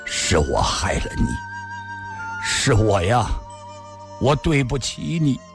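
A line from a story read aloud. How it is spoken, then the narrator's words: Hoarse, word by word. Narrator (Chinese): 李寻欢的声音已嘶哑，一字字说道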